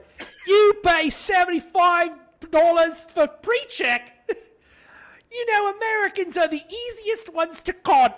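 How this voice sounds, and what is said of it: Eliza Doolittle-ish English accent. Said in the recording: “this Eliza Doolittle-ish accent”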